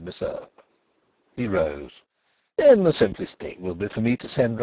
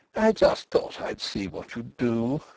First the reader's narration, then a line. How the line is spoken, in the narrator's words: she said in a low, confidential voice, from which all trace of hostility had suddenly departed